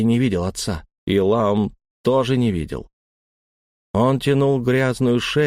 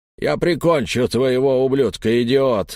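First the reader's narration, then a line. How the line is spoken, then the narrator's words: Loud bark. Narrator (Russian): гаркнул он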